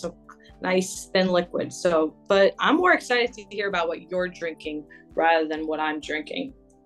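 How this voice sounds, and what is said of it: Strained, tired voice. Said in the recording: “My voice is a little difficult now”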